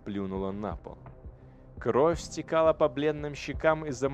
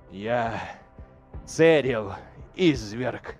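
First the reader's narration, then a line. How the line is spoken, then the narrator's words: Near hiss. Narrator (Russian): Она почти прошипела эти слова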